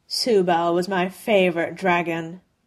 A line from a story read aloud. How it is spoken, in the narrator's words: Mechaton said, his words curling around a snarl